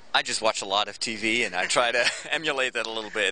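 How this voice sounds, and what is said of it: American-sounding accent, Dutch speaker. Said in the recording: “your accent's very good. It sounds very American.”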